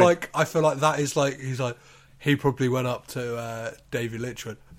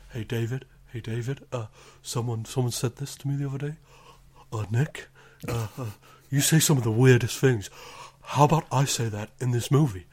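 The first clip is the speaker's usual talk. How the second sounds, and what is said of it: Imitates another person's voice. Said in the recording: “that Nicolas Cage impression ... I don't know if it's any good, but hopefully it's terrible.”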